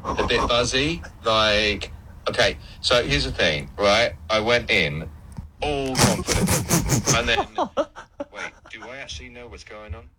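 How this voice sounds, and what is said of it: Imitates another person's voice. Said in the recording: “Are you saying that's what I sound like? ... the accent wasn't quite there ... Impersonation.”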